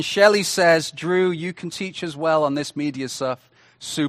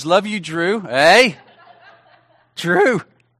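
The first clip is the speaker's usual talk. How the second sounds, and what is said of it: Excited voice cracking. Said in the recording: “My voice cracked then. I was so excited.”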